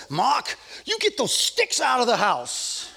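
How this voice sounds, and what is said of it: Thick Swiss German accent. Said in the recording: “in her thick Swiss German accent”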